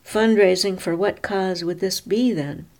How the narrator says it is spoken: Muffy cried

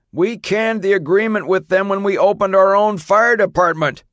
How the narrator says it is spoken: the chief yelled

